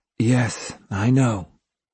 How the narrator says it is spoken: Ito murmured

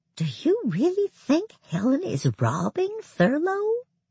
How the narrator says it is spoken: Luann leaned forward to whisper

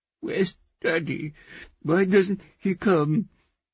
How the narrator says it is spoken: she sobbed

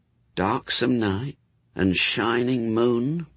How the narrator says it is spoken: muttered Anathema

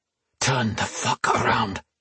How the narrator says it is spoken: he hissed

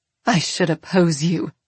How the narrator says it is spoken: Bree says bitterly

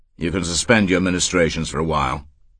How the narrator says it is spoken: he said curtly to Sullivan

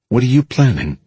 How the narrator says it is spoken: asked

